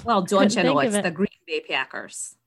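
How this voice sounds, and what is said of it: Put-on Wisconsin accent. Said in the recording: “the accent for the Packers”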